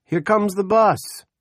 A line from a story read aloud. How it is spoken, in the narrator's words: Special Deputy Toby Manning shouts